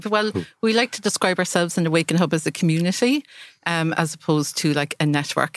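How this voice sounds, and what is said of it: Irish Cork accent. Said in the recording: “I'm from Cork. ... Get away. That accent.”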